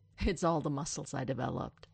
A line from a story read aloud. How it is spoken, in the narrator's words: Stiles snorts